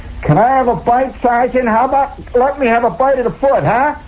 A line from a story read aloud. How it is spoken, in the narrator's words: in the crowd somebody hollering, say